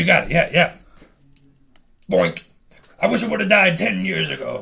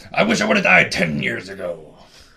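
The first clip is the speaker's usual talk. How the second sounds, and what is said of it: Imitates another person's voice. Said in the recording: “your best William H. Macy impersonation as he's being shot in the gut”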